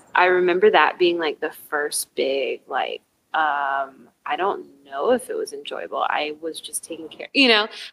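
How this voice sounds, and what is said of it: Tired, exhausted-sounding voice. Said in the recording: “You can probably hear the exhaustion in my voice”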